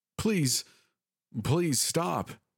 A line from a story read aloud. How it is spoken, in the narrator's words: a familiar voice yelled out